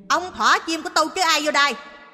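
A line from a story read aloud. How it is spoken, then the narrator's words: Hissing, irritated. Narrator (Vietnamese): miệng rít lên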